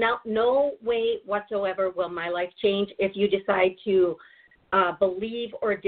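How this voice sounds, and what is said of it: Usual voice. Nothing is said of it.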